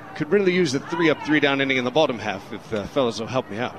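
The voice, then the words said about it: Put-on English accent, drifting. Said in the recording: “there's a fairly sizable opportunity for my accent to drop into many other dialects. Very well could be Australian, could be Irish.”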